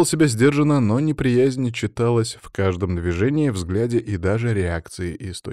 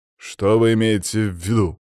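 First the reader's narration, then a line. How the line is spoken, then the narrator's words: Said through teeth. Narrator (Russian): процедил граф Городецкий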